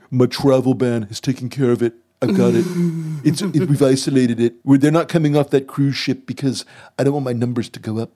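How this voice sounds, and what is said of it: Imitates another person's voice. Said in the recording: “Trump impersonation ... I'm trying to do a Trump impersonation”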